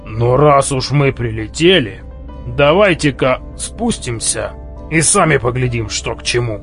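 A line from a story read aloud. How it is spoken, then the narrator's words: Sullen grumble. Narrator (Russian): угрюмо проворчал Арнилд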